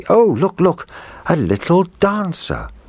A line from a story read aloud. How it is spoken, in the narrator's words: the little girl cried out happily